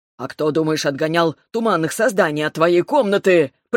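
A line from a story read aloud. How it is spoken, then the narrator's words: Impatient growl. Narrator (Russian): прорычал Ревел, теряя терпение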